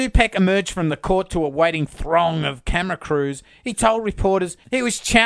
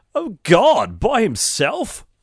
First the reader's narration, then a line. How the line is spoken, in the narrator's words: When told how much the bill amounted to, she exclaimed